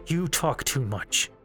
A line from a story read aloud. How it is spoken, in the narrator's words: Link said through gritted teeth